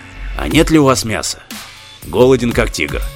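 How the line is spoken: Hungry, spoken aloud. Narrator (Russian): выразил вслух пожелание буркнувшего было живота

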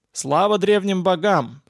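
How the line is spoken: Loud. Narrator (Russian): сказал Владимир громко

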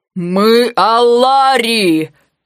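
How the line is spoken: Furious roar. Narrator (Russian): в бешенстве взревел Виктим

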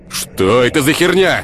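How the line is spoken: Man shouting. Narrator (Russian): выкрикнул мужчина

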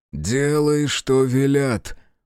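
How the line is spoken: Growling voice. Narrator (Russian): подтвердил Верзил рычащим голосом

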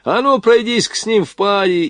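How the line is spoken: Officer shouting. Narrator (Russian): поручик крикнул ей

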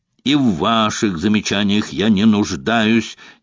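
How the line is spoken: Furious warrior barking. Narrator (Russian): рявкнул воин, придя в полное бешенство

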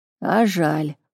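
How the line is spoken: Skeptical snort. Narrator (Russian): хмыкнул

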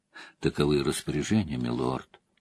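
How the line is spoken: Whisper. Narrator (Russian): произнес Тима по-прежнему шепотом

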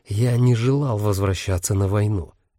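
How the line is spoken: Said quietly. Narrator (Russian): тихо проговорил Дамиан

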